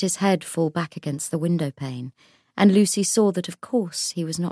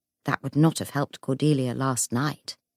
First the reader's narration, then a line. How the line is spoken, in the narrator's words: Jessie said